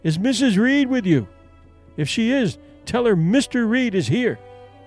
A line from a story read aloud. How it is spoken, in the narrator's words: they called out